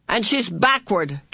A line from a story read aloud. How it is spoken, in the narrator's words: Calvin bellowed